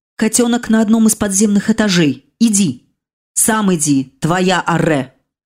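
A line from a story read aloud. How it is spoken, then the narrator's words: Growl. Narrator (Russian): рыкнул смерть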